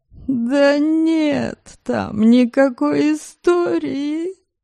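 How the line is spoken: Tearful voice. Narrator (Russian): плачущим голосом заявил Магнус

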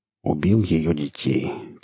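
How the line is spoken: Quiet. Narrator (Russian): тихо ответил Марк

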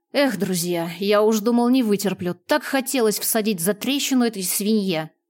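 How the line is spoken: Grumble. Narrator (Russian): проворчал Экрон

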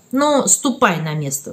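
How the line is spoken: Plain. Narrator (Russian): сказал Сергей Петрович

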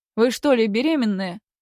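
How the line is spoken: Loud question. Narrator (Russian): громко вопросил

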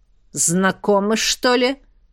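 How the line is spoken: Growled. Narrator (Russian): рыкнул Горыныч

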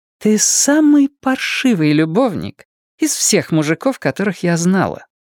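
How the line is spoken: Sweet voice. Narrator (Russian): сладким голосом поведала ему Дэйна

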